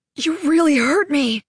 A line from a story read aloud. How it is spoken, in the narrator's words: he gasped Raleigh, terrible surprise in his voice